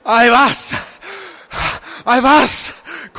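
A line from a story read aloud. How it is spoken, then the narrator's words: Panted repeatedly. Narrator (German): keuchte er immer wieder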